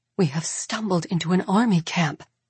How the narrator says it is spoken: Mirabella whispers furiously

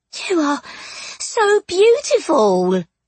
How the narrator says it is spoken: the ghost breathed

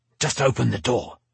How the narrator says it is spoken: he snapped

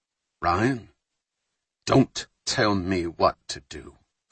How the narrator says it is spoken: Fowler said quietly

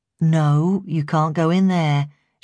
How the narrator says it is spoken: she said calmly

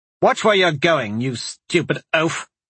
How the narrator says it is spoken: the boy snapped

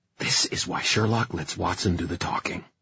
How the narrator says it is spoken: Kit said to him in a hissing whisper

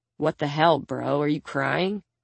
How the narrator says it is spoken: Vidar turns to him skeptically and mutters

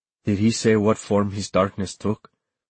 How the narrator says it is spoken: asked calmly

